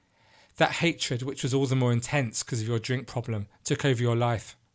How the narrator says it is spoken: said the judge

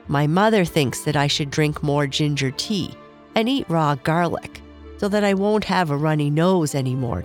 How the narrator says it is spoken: Charlie said

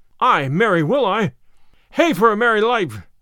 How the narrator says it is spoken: cried he

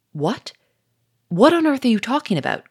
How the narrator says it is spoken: cried Gouchard, with a sudden anxiety in his voice

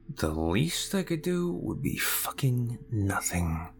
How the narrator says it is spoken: I muttered to myself

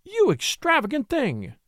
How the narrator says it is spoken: she cried

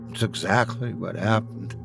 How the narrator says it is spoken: I said weakly

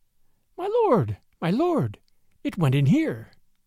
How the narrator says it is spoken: Tabaki, behind him, was squeaking

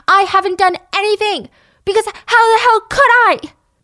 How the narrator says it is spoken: She screamed back at him

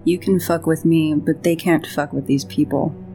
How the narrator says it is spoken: Rid says, under her breath

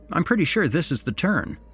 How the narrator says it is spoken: said Mark

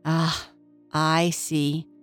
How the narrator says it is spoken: said the artist fairy sadly

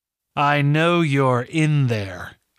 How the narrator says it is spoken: she said, her voice amplified just enough to give it a chilling effect

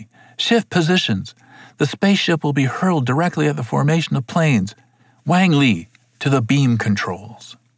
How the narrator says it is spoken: yelled Satsumi

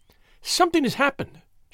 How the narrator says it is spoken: she cried

